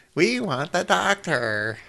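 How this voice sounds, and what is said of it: Imitates an alien character's voice. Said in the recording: “my Komari impersonation”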